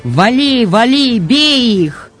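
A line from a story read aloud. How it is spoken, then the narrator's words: Young soldier shouting. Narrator (Russian): широкомордый парень-красноармеец кричал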